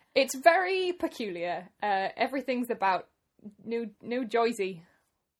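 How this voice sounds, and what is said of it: Put-on New Jersey accent. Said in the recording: “That was ... amazing accent.”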